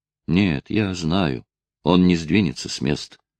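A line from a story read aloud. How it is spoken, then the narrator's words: Eerie, barely audible. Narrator (Russian): ответил юноша жутким, еле слышным голосом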